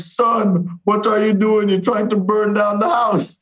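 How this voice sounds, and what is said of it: West Indian accent, upset. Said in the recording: “My dad had lost his West Indian accent. He only ever had it when he was upset.”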